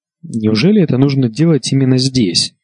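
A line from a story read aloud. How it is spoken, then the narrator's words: Plain. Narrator (Russian): спросил он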